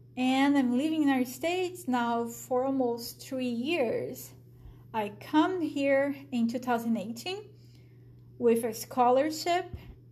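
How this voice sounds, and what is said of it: Brazilian accent. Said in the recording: “a Brazilian. You guys probably figured out by my accent.”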